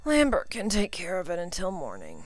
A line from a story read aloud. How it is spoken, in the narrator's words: he said to himself sleepily